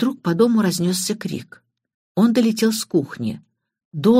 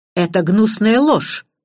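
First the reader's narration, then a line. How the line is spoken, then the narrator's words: Exclaiming. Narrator (Russian): воскликнул Эдмунд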